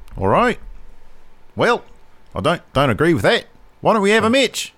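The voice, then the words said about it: Poor put-on Australian accent. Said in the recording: “That was a terrible... my terrible butchering of the Australian accent.”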